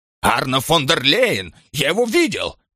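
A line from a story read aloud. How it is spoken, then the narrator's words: Almost shouting. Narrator (Russian): чуть ли не кричал Штих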